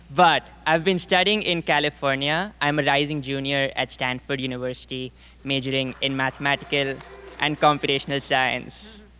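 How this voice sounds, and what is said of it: Indian English accent. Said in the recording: “if my accent doesn't already give it away, I'm from India”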